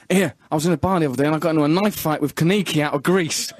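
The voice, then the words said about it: Imitates another person's voice. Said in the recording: “I'll see if I can recreate it exactly ... that was a good impression.”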